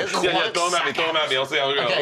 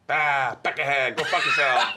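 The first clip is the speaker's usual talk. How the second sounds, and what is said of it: Put-on Boston accent. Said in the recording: “What about Boston?”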